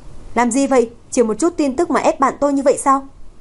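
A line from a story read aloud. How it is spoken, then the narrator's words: Angry young man scolding. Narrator (Vietnamese): Người đàn ông trẻ tuổi tức giận mắng thẳng mặt đám phóng viên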